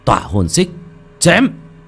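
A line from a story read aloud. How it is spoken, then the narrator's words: Loud battle cry. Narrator (Vietnamese): Một tiếng hét lớn vang lên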